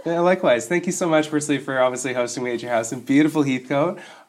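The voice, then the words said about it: Deeper, sick-sounding voice. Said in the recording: “my voice is sounding a little bit off still ... recovering from a bit of a bout of man flu ... I'm coming in the baritone voice today ... my voice is a little bit out”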